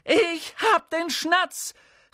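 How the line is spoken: Calling out. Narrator (German): rief er

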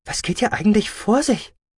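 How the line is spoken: Stuttering. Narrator (German): stotterte Med Formax

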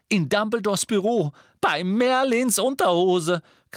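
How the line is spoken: Shrieked. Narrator (German): kreischte Hermine, dass Harry und Ron zusammenzuckten

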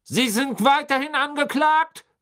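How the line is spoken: Barking. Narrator (German): bellte Mr

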